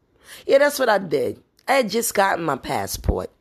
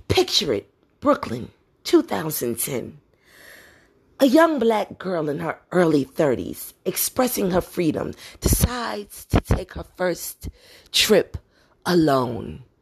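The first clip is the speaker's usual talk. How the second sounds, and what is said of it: Sophia Petrillo character voice. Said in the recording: “In my Sophia Petrillo voice”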